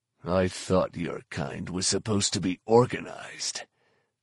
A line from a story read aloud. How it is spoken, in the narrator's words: Fett growled